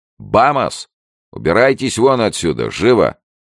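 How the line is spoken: Young man barking. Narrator (Russian): высокий молодой человек ... гаркнул

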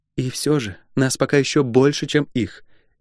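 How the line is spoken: Gentle reminder. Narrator (Russian): мягко напомнила она

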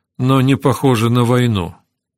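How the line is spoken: Calm. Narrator (Russian): спокойно заметила Кэтрин

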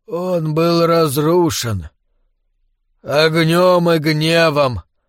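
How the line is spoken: Pained wheezing answer. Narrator (Russian): ответил король горы и с мучительным хрипом вздохнул

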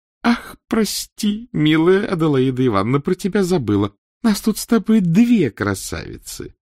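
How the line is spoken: Shrill yelping laugh. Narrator (Russian): со смехом взвизгнувшей левретки

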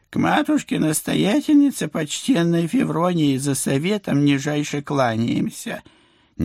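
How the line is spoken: Sickly-sweet singsong. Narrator (Russian): неправдоподобно елейным голоском пропела баба-яга

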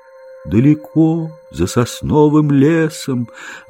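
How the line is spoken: Deep dreamy voice. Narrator (Russian): ответил тот глубоким мечтательным голосом

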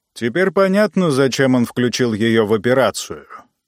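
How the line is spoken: Grumbling. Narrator (Russian): проворчал Ранситер

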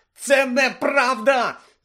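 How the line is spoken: Shouted. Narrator (Ukrainian): закричав Гаррі

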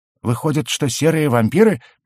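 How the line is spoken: Timid squeak. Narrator (Russian): пискнул Кликли, с опаской

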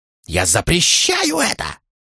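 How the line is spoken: Almost shrieking. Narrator (Russian): Регал почти визжал

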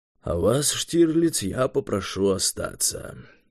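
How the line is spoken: Quiet mutter. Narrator (Russian): пробормотал Юрий тихо

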